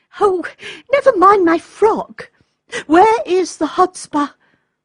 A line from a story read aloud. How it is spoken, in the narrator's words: exclaimed Olga in great excitement